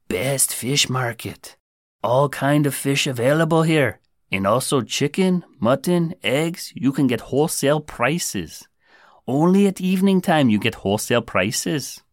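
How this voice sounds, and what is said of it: Put-on Indian accent. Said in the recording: “I know I said I'd fight the urge to attempt an Indian accent. I think that's what that was. Anyway, I guess I lost the battle there.”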